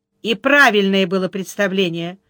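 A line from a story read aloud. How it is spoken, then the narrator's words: Angry confirmation. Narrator (Russian): подтвердила она сердито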